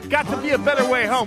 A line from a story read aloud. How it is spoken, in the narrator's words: using my highly trained broadcast and command voice, I yelled out